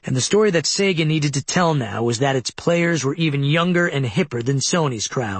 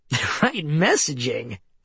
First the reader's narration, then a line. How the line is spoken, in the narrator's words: Milken laughed